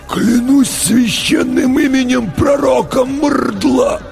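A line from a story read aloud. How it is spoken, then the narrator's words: Choked wheeze in unison. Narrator (Russian): В унисон просипели оба десантника перехваченными горлами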